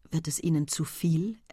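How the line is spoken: Quiet inquiry. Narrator (German): erkundigte sich Hector leise

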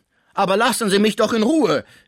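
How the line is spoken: Calling out. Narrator (German): rief Pons

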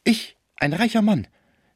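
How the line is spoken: Desperate cry. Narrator (German): rief Schmucke voller Verzweiflung darüber, dass man ihn der Habgier verdächtigen könne

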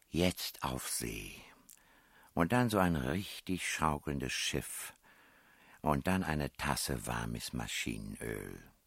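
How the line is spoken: Quiet, to herself. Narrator (German): sprach sie leise wie zu sich selbst

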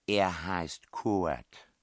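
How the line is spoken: Plain. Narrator (German): sagte die Prinzessin

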